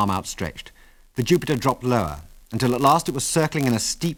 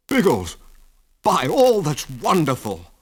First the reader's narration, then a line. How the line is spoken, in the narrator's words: cried Wilkes enthusiastically